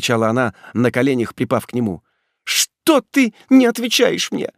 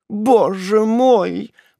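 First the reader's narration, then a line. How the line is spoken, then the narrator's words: Girl's unhappy moan. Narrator (Russian): простонала несчастная девушка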